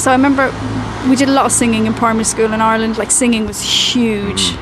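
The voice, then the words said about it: Regional Irish accent. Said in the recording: “your voice does come across, you have a regional accent”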